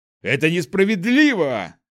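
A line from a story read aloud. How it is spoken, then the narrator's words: Tall bearded man shouting. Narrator (Russian): кричал высокий мужчина с длинной бородой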